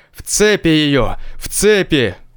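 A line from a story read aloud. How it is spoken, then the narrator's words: Furious roaring shout. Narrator (Russian): Заорал в бешенстве патриарх, и крик его, вероятно, был слышен далеко по округе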